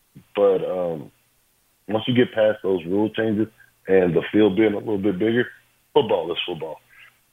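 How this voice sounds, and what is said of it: Choked-up emotional voice. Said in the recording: “I'm getting choked up because it's exciting to talk about it”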